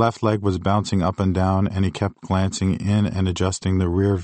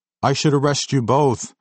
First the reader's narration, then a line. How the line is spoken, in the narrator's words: screamed